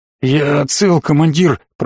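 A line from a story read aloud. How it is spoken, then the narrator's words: Hoarse, shaky voice. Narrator (Russian): прохрипел парень, дрожал, как в лихорадке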